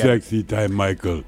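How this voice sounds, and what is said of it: Put-on female Russian accent. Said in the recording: “that is my female Russian voice ... She sounds tired.”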